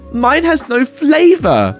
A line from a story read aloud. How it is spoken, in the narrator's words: she exclaims